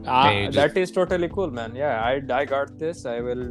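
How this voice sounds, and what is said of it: Put-on Indian accent. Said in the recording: “Can you actually do the whole pod in the Indian accent? ... do this entire podcast in this accent”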